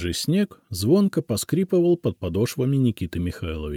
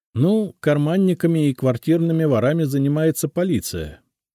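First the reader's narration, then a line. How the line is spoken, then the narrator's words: Laughing. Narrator (Russian): рассмеялся я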